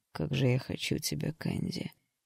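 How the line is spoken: Quiet. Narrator (Russian): Проговорил он тихо

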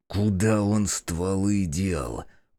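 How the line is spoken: Menacing hiss. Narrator (Russian): прошипел я в лицо Коляна

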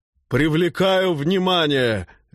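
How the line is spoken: Bold shout. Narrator (Russian): дерзко выкрикнул он

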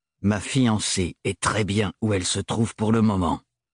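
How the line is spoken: Heavy leaden retort. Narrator (French): rétorqua Thorne d'une voix de plomb

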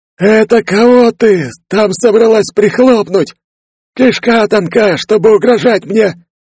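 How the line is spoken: Mummy's creaky voice. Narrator (Russian): Вновь проскрипела мумия

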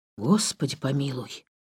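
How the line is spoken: Whispered. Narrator (Russian): прошептал

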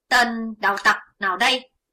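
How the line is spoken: Two men shouting together. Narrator (Vietnamese): Hai tên cao thủ đồng quát

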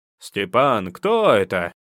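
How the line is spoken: Shouting from kitchen. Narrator (Russian): крикнули с кухни

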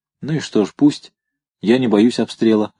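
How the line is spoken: Plain. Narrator (Russian): ответила она

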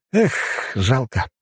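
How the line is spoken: Sighing. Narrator (Russian): вздохнул я

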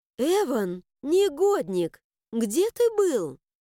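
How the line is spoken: Dignified female exclamation. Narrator (Russian): Степенно воскликнула драконица

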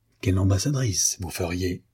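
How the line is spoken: Quiet, low voice. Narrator (French): lui dit-il tout bas

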